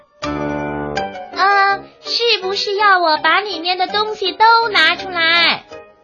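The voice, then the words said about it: Loud shouting voice. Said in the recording (Chinese): “小拇指大声的喊”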